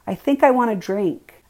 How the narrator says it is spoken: said loudly, to be sure he could hear me

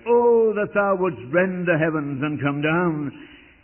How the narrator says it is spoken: Isaiah cried

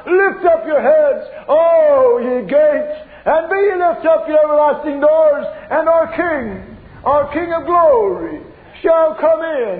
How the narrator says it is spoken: the angels by the myriad are assembled, and they lift up the shout

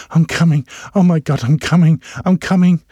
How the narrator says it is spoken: she panted hard and low

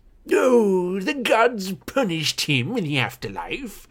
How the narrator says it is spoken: Tantalus croaked

